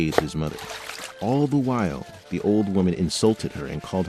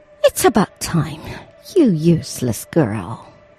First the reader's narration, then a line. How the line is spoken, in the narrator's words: the old woman sneered